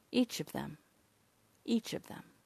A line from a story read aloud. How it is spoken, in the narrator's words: he said swiftly and gently